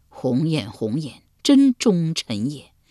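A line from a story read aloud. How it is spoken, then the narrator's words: Long sigh. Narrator (Chinese): 公子毁长叹道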